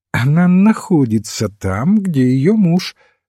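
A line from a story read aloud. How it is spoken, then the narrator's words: Plain. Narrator (Russian): сказал отец Браун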